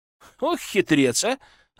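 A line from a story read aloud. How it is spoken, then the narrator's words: Laughing. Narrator (Russian): рассмеялся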